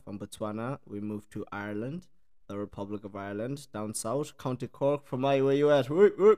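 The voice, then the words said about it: Mixed South African-Irish accent. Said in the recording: “the accent is a mix, eh? It's a mix. So I'm originally South African”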